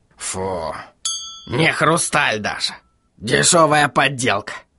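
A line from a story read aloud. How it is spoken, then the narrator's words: Scoffing. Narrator (Russian): хмыкнул он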